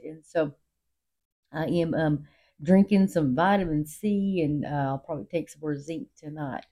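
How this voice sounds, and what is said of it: Rough, hoarse voice. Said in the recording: “my voice is a little rough”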